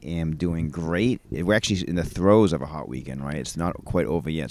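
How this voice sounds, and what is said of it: Maine accent. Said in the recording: “an amazing Maine accent”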